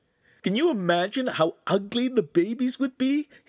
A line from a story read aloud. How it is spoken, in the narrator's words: He said, almost choking with mirth